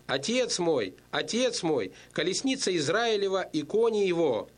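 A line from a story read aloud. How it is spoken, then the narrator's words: Exclaiming. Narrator (Russian): Елисей успел только воскликнуть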